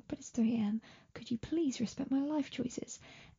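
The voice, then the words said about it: Whispering. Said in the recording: “I know I'm whispering”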